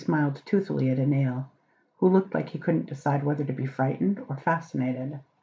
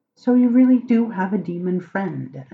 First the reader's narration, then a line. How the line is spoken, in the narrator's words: Anale blurted out